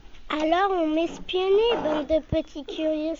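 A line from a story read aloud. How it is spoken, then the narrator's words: Exclaiming. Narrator (French): s'exclame-t-il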